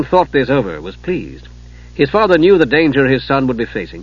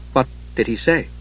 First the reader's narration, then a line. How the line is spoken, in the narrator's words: Palin had asked uneasily